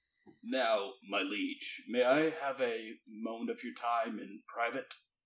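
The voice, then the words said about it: Sultry character voice. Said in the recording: “do the voice ... it would have been too sultry”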